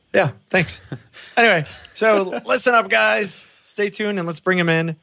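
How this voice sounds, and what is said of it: Higher-pitched, weakened sick voice. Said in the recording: “I'm a little bit sick. Have somewhat lost my voice, which is why I sound more like a little girl than I normally do.”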